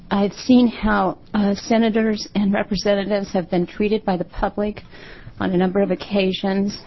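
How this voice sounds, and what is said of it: Shaky, nervous voice. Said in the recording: “my voice is shaky here”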